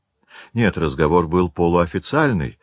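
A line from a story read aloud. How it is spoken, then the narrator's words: Plain. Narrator (Russian): сказал учитель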